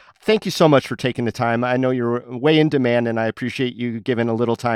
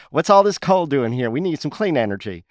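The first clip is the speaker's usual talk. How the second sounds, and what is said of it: Southern-accented Dina Titus impression. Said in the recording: “a canary with a Southern accent ... That's my Dina Titus as a canary in the coal mine ... Not a good Dina Titus”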